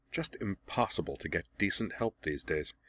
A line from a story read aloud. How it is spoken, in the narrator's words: Azula muttered